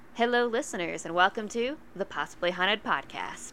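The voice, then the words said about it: Sultry, seductive voice. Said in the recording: “Ooh, a sexy voice.”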